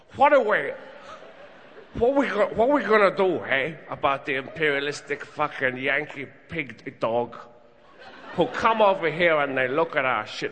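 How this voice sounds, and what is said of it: Exaggerated mixed foreign accent. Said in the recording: “I'm doing a pan-global accent ... It's kind of Chinese Al Pacino from Brooklyn”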